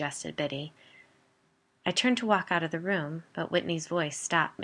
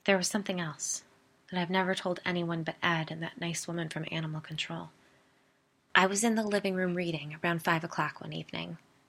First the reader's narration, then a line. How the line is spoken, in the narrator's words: said, very quietly